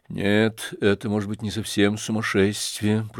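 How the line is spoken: Trembling, shocked whisper. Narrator (Russian): прошептал бледный, как платок, и дрожащий Птицын

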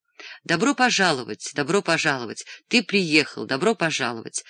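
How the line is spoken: Fervent, warm reply. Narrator (Russian): жаром ответил

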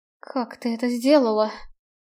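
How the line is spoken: Amazed whisper. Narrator (Russian): изумленно прошептала Рене

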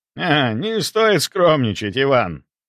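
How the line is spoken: Good-natured laugh, older man. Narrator (Russian): добродушно рассмеялся немолодой барон

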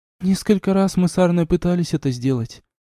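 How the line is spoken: Sighing. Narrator (Russian): вздохнула Дуняша

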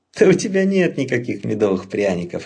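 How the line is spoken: Laughing. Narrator (Russian): рассмеялся Леопольд

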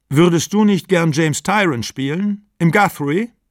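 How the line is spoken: Loud call. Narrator (German): rief er mit lauter Stimme

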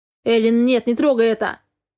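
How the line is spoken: Screaming in strained voice. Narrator (Russian): не своим голосом закричал Дерек

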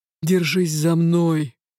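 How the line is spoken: Low growling command. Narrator (Russian): велел он низким рычащим тоном

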